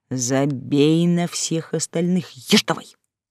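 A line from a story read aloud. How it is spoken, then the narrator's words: Firm bass voice. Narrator (Russian): второй голос твердым басом заявил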